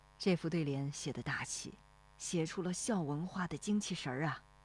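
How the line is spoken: Admiring voice. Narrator (Chinese): 罗生赞叹说

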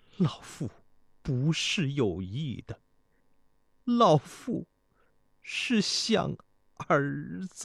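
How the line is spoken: Weeping. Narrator (Chinese): 太后说着，不由得哭泣起来

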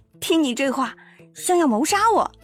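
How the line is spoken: Amused smile. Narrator (Chinese): 麦青青莞尔一笑

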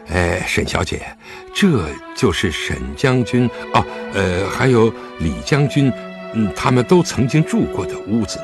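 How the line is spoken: Hesitant, soft. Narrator (Chinese): 狄春迟疑了一下，轻声道

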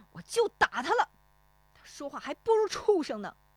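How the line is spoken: Angry. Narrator (Chinese): 石丽华怒声说

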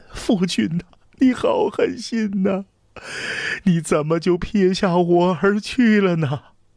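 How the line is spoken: Loud sobbing, crying out. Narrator (Chinese): 长公主 放声痛哭，口里声声呼唤

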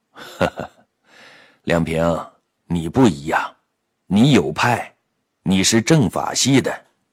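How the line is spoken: With a laugh. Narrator (Chinese): 姬长明摇头笑了笑

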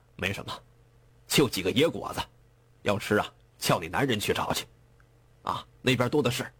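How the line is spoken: Cold laugh. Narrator (Chinese): 眼镜男冷冷一笑

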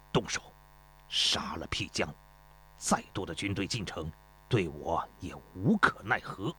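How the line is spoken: Grim, through gritted teeth. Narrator (Chinese): 焦师心一横，咬牙切齿地说

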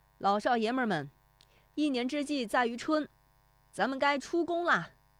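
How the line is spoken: Rallying shout. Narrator (Chinese): 拾得义他的喊声

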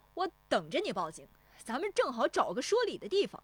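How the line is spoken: Fearless shout. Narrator (Chinese): 石丽华也不怯他，转身喊

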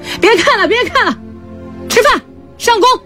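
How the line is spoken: Shouting. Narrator (Chinese): 他喊

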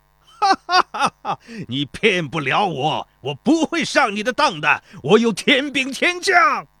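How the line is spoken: Wild laughter. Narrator (Chinese): 孙膑 狂笑道

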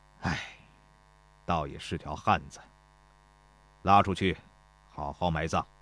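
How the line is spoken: Sighing. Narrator (Chinese): 田忌叹道

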